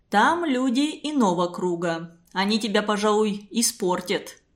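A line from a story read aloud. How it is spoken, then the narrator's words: Mocking. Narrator (Russian): насмешливо сказал Глушков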